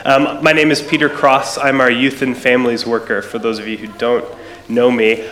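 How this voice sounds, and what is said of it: American accent. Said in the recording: “You can hear from my voice, I'm not Scottish, I'm American”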